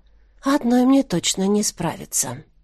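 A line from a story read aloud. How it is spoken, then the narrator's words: Quiet. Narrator (Russian): Мариэль тихо произнесла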